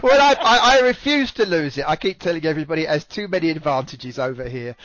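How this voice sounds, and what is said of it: British accent. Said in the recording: “Everybody loves a British accent.”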